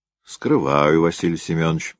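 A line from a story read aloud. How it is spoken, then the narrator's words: Sighing. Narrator (Russian): вздохнул Орлов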